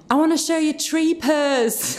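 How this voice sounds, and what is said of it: Weak put-on Huddersfield accent. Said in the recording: “That was my Huddersfield accent. ... Needs a little bit of work.”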